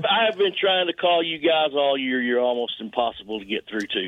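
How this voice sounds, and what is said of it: Texan accent. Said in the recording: “You sound exactly like a JR from Texas.”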